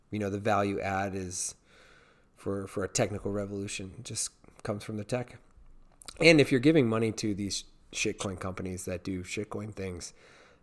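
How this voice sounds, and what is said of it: Strained, fading voice. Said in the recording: “I know you're losing your voice.”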